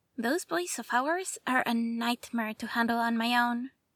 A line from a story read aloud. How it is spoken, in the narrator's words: added with a quiet laugh